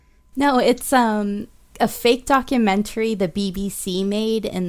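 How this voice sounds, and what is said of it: Usual voice. Nothing is said of it.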